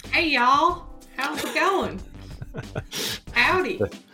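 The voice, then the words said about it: Put-on cartoonish Southern US accent. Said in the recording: “Are you trying to be more Texan or more Carolinian?... Maybe a hybrid... nondescript Southern accent... This is what cartoons sound like”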